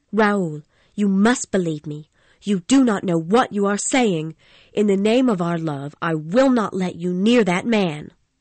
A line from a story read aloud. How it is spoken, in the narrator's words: Christine said firmly